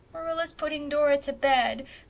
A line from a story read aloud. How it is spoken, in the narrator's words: sobbed Davy